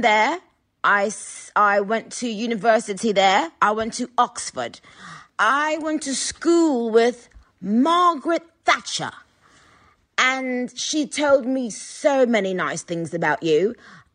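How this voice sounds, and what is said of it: Put-on English accent. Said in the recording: “solid accent”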